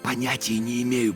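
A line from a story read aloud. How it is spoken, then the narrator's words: Whisper. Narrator (Russian): прошептал я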